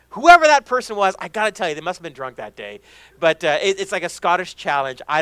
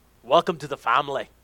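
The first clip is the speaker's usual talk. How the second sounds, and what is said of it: Bad put-on Scottish accent. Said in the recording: “a horrible, horrible Scottish accent.”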